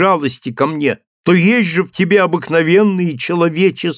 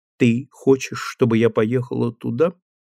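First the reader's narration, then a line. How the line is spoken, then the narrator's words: Quiet, firm, calm question. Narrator (Russian): Тихим голосом, но твердо и спокойно, она спросила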